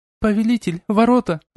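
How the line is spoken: Shriek. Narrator (Russian): взвизгнула Сильвия

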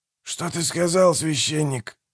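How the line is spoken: Through gritted teeth. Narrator (Russian): процедил Манфред

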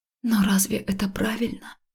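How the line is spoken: Breathed out. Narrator (Russian): выдохнула я

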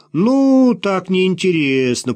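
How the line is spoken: Drawled. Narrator (Russian): протянул Антон

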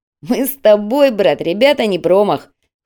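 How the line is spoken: Amused snort. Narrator (Russian): хмыкнул Звиад

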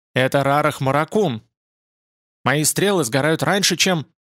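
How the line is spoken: Sorrowful shout. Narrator (Russian): Бер крикнул горестно

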